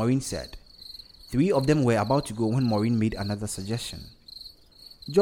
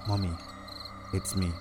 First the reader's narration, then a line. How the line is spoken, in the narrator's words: he said softly